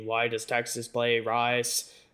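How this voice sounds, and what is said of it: John F. Kennedy impression. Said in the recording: “That's my John F. Kennedy impersonation... It was awful.”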